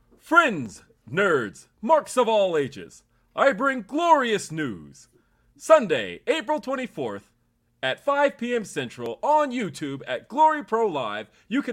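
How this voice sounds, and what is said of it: Exaggerated announcer voice. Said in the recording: “give me your best announcer voice”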